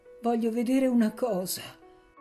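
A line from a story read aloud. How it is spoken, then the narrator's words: Trembling childlike voice. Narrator (Italian): disse con voce tremula da bambino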